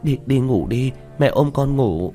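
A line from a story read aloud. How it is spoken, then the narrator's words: Woman's frightened voice. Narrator (Vietnamese): Giọng người phụ nữ rõ ràng cũng mang theo sợ hãi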